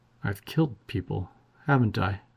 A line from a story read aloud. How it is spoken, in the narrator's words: She mumbled like a child